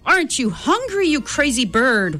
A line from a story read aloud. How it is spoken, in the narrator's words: wailed Don Pepe